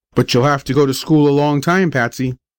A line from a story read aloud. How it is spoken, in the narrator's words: said I